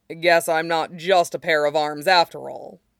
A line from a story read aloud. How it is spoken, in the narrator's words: he said gruffly